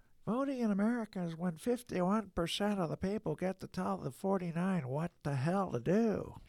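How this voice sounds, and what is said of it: Imitates another person's voice. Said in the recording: “In the words of Stanley Hauerwas, you want me to do my imitation? ... that was Stanley imitation.”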